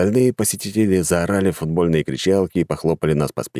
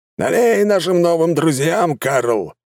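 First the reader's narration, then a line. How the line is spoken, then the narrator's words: Man shouting. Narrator (Russian): крикнул мужик у стойки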